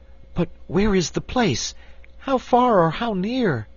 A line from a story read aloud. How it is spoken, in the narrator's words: asked Cake anxiously